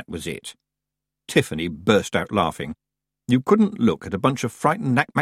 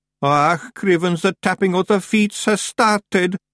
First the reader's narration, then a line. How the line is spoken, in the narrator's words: moaned Daft Willy